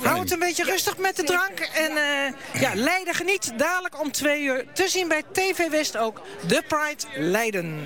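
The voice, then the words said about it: Leiden Dutch accent. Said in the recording (Dutch): “heerlijk dat Leids accent”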